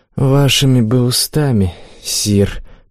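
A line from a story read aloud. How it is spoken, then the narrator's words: Mournful sigh, warrior. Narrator (Russian): тоскливо вздохнул воин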